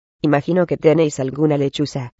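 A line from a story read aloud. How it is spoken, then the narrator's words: Teacher speaking coldly. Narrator (Spanish): dijo fríamente la profesora McGonagall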